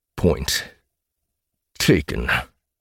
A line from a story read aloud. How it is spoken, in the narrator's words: he growled through gritted teeth